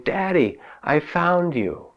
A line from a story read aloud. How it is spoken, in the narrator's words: with a great shout of joy, she exclaimed